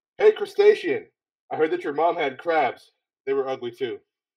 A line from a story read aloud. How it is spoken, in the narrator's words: yell